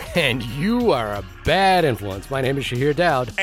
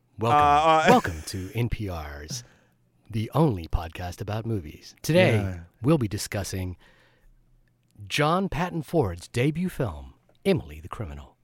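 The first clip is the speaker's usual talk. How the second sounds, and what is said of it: NPR radio host voice. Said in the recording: “in an NPR voice?”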